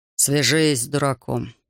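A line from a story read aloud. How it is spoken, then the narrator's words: Muttering. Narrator (Russian): пробормотал он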